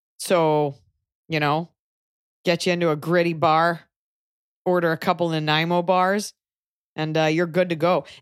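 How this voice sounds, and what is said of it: Put-on Canadian accent. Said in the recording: “I do think there's a Canadian accent. It's like that. ... It kind of sounds like a pep talk from a coach at all times, eh?”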